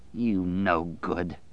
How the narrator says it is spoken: Dave snarled

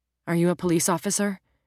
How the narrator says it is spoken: she asked so quickly

